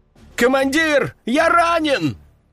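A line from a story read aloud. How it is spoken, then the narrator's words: Soldier shouting in pain. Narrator (Russian): кричал солдат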